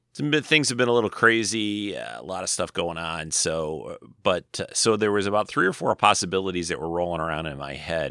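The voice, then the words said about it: Slightly hoarse, dry voice. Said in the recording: “my throat or my voice is a little hoarse today. It's kind of dry here”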